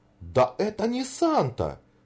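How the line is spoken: Fairy's exclamation. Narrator (Russian): воскликнула фея Бифана

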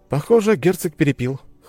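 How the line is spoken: Amused snort. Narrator (Russian): хмыкнул я

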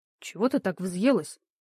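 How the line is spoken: Quiet question. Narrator (Russian): тихо спросил меня Гарик

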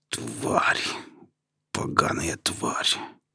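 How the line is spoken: Grated through teeth. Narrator (Russian): проскрежетал я сквозь зубы

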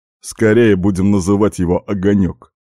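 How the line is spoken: Puzzled snort. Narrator (Russian): озадаченно хмыкнул Дэйв

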